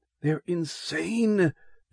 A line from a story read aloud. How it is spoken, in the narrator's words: The urgent rasp